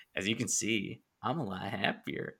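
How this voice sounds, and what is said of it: Jack Nicholson's Joker impression. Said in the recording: “That impression. ... it was like literally Jack Nicholson ... his Joker”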